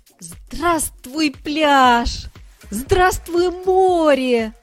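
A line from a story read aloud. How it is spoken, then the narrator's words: Full-voiced shout. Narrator (Russian): закричал Шмяк во весь голос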